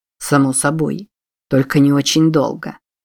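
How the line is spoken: Grumbling. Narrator (Russian): проворчал Пауэлл

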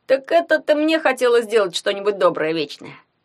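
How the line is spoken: Snorting. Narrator (Russian): хмыкнул Ягун

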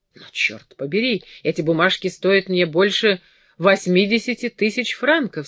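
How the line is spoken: Angry exclamation. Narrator (Russian): сердито воскликнул принц

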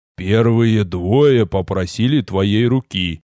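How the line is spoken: Father's amused snort. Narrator (Russian): хмыкнул отец

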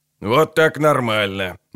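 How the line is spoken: Grumbling. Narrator (Russian): бурчал Амос

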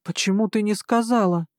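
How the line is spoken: Angry question. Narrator (Russian): сердито спросил Саим

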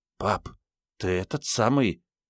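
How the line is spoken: Whispered. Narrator (Russian): Танька шепнула

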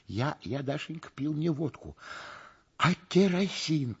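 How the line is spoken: Muttering. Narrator (Russian): пробормотал Стриж

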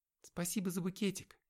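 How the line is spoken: Timid. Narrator (Russian): робко сказала она

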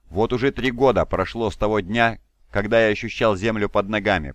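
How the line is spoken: Growled. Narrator (Russian): прорычал магистр

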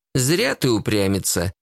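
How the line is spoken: Elderly mentor sighing. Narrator (Russian): вздохнула пожилая наставница

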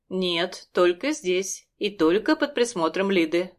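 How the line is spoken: Stern. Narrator (Russian): говорит строго

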